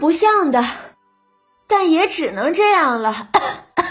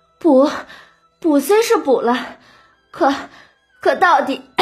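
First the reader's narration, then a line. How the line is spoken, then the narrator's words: Breathless, coughing, relieved. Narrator (Chinese): 晴雯呐放松下来，禁不住咳嗽了好几阵，气喘吁吁的说道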